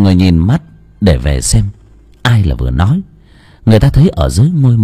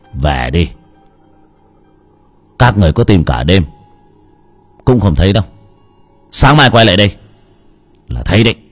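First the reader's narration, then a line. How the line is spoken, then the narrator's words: Sudden shout. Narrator (Vietnamese): bỗng nhiên có tiếng người la lên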